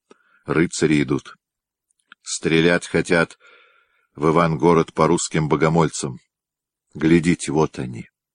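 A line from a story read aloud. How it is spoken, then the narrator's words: Quiet. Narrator (Russian): Она тихо сказала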